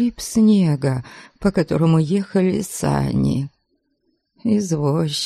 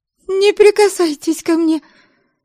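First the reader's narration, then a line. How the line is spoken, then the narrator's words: Squealing. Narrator (Russian): Взвизгнула я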